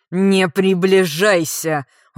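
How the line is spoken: Menacing growl. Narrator (Russian): угрожающе прорычал Бал

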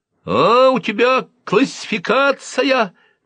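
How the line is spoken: Thin, spiteful shout. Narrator (Russian): тонко и злобно крикнул я

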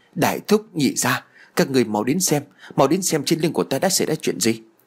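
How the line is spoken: Frightened shout. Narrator (Vietnamese): Tôi sợ hãi liền la lên

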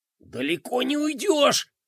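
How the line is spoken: Hiss. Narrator (Russian): прошипел бублик

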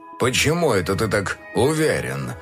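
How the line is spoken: Snorting. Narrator (Russian): фыркнул Макс

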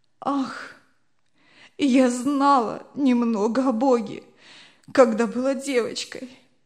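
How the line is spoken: Sobbing. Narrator (Russian): отвечала несчастная, рыдая

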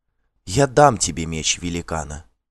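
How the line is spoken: Quiet witch. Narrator (Russian): тихо сказала ведьма

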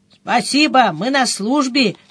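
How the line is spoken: Cheerful reply. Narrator (Russian): бодро ответил один из них

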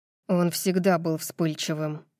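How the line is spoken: Muttering. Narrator (Russian): бормочет Ленни

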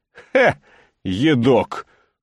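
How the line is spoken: Scornful snort. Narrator (Russian): фыркнул Аким

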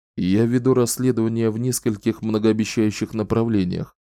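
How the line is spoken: Calm. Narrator (Russian): спокойно ответил Далтон

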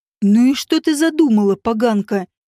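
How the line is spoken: Through gritted teeth. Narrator (Russian): сквозь зубы спросил

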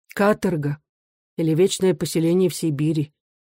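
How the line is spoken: Quiet reply. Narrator (Russian): тихо ответила она

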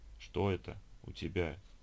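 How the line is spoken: Mumbled through throat spasms. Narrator (Russian): Борясь с горловыми спазмами, пробормотал Вершинин

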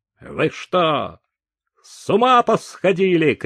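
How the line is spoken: Shouting. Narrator (Russian): крикнула Дюваль

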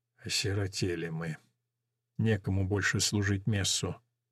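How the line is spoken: Whisper. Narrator (Russian): тот прошептал

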